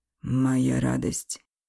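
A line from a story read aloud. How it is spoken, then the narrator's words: Breathy exhale. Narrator (Russian): выдохнул он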